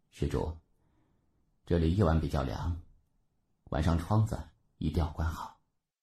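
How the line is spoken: Soft caring advice. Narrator (Chinese): 小和尚轻声嘱咐道

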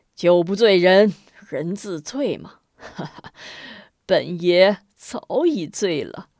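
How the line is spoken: Lecherous laugh. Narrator (Chinese): 边豪淫笑着

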